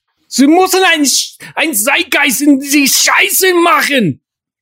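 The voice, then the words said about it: Put-on German accent. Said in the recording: “I can't really do a German accent.”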